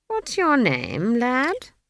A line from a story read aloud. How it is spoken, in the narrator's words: he said, as kindly as possible